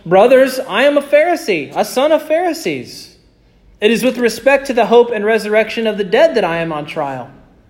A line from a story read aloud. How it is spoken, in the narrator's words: he cried out in the council